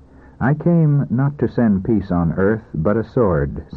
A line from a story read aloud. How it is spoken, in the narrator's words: said Jesus Christ